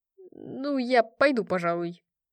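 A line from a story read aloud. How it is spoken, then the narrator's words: Uncertain remark. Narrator (Russian): неуверенно заметил Дерида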